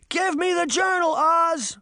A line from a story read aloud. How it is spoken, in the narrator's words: Sabrina cried